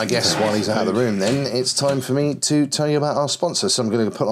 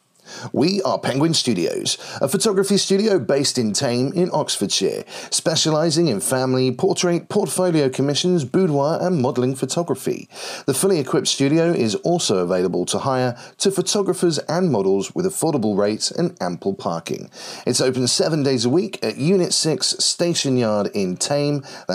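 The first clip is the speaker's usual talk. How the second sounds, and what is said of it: Commercial advert announcer voice. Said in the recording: “put on my best commercial voice”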